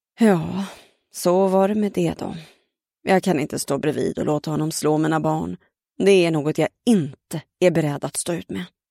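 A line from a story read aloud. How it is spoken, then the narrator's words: Tired, resigned mother sighing. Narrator (Swedish): Mamma suckade ... trött och uppgiven ... sa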